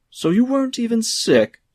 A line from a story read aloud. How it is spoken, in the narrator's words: shouted the head waiter all the more loudly